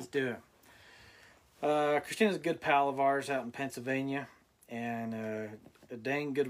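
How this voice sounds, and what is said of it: Strained, worn-out voice. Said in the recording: “I'm losing my voice. I've been talking all day. ... sorry if this sounds like crap as I'm talking.”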